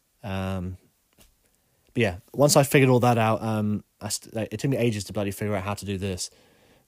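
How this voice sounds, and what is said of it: Congested, monotonous voice. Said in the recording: “my monotonous voice. I'm a little bit bunged up today as well, so my voice is all over the place.”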